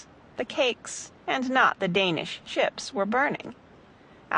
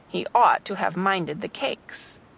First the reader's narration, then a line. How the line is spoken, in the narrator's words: she added grumblingly